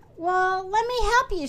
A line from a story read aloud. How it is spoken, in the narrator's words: she cried